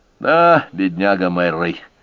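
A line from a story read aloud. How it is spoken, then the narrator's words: Sighing. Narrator (Russian): вздохнул Рой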